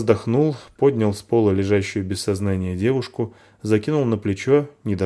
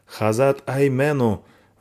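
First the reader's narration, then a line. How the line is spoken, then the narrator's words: Hoarse scream. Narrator (Russian): Вопит она сорванным голосом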